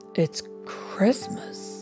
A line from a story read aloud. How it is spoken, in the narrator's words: said softly